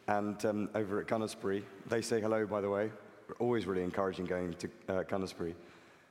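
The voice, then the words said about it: Weak, fading voice. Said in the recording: “apologize for my voice. It's disappearing”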